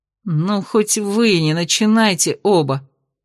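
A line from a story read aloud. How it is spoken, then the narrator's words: Groaning. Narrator (Russian): простонал он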